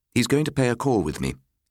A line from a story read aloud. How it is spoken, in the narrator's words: he explained curtly